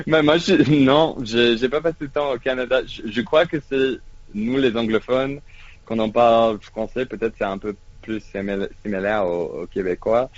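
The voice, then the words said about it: French with Québécois-like anglophone inflection. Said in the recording (French): “votre accent, vous avez une inflexion canadienne, une inflexion québécoise, ah ouais, dans votre façon de parler français”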